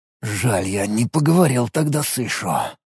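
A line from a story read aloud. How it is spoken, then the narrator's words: Regretful mutter. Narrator (Russian): пробормотал Алекс, вспоминая старого друга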